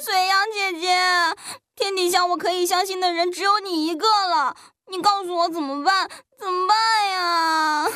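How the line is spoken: Crying out loud. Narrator (Chinese): 他…哭着大叫

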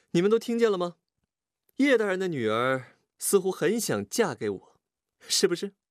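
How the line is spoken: Laughing question. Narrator (Chinese): 他笑着问道

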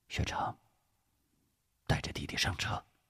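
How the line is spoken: Deep, calm voice. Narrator (Chinese): 吴石没有责怪，沉声说道

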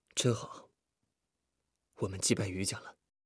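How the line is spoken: Quiet, laughing. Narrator (Chinese): 李富贵不知不觉的也笑了出来，低声说

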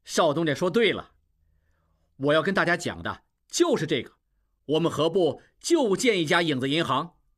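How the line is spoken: Crowd clamoring. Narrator (Chinese): 众人从没有听说过影子银行，又嚷嚷起来

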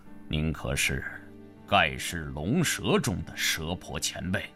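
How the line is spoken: Deep, startled voice. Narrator (Chinese): 心中暗吃一惊 沉声说道

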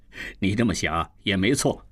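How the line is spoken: Grinning laugh. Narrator (Chinese): 蒋作斌咧开嘴笑道

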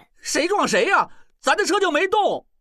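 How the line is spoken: Shouting. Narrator (Chinese): 小栓边喊

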